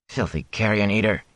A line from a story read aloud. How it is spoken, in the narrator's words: he muttered